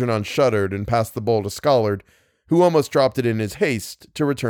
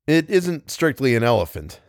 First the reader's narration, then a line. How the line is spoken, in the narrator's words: said Algernon